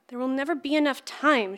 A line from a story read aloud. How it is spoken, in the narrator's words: she blurted back